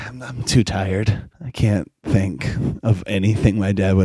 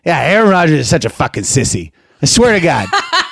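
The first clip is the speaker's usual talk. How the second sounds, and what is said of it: Thick Maine accent, tough-sounding. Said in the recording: “My dad has a thick Maine accent. He sounds like he'll break your kneecaps if you cross him.”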